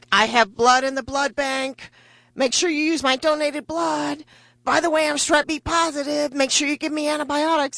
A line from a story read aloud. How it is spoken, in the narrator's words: I'm yelling out things like